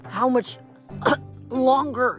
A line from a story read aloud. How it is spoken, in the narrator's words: she wheezed